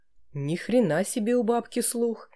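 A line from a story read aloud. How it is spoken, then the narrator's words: Hissed through teeth. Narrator (Russian): прошипел сквозь зубы Александр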